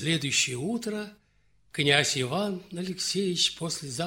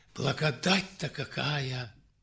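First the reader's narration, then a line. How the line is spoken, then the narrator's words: Laughing whisper. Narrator (Russian): засмеялся Иван и прошептал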